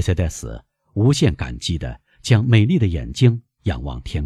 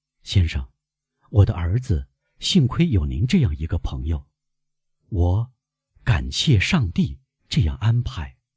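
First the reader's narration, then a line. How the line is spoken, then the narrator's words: Deep, grave tone. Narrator (Chinese): 德摩尔塞夫夫人用深沉的声调回答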